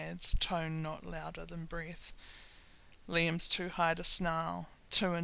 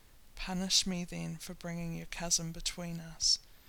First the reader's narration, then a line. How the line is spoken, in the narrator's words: tilts his head to whisper in Liam's ear